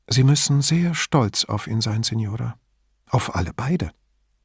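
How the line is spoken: Said softly. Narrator (German): sagte leise

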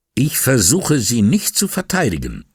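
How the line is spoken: Angry. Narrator (German): sagte wütend

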